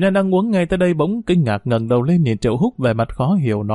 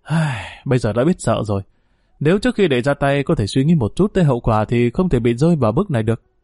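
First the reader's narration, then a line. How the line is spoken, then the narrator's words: Sighing, resigned. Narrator (Vietnamese): Triệu Húc thấy Triệu Nhân đang lo lắng khi trở về sự bị trách phạt, liền thở dài nói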